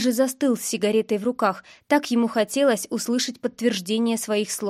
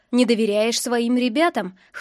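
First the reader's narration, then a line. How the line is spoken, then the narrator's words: Snorting. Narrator (Russian): хмыкнул я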